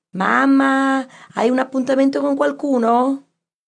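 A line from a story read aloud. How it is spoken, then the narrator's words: Shouted. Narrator (Italian): le gridò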